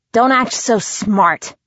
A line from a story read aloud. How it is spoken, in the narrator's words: I said through gritted teeth